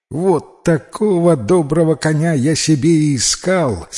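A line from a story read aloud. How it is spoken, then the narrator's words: Joyful exclamation. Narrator (Russian): с радостью воскликнул Алмай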